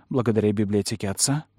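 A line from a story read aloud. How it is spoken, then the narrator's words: Whisper. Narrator (Russian): прошептала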